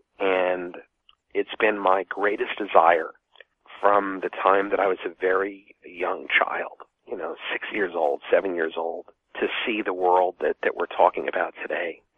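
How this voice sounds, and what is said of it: Emotional, affected voice. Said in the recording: “I'm kind of sensed that I'm a little emotionally affected”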